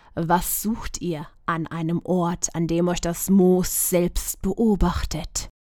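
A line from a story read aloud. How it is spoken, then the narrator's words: Whispered. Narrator (German): Vika flüsterte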